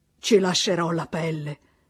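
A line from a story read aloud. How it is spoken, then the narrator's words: Sigh. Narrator (Italian): sospirò papà Goriot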